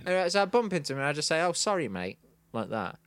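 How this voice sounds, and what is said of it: Manchester accent. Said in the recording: “you are from Manchester, aren't you?... I think the accent tipped it off”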